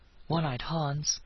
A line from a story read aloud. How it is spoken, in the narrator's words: he breathed